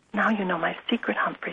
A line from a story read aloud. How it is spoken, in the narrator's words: she whispered